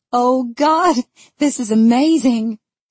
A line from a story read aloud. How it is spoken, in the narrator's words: she gasps between giggles